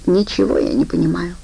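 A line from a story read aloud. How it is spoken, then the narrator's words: Sighed. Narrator (Russian): вздохнула Хелли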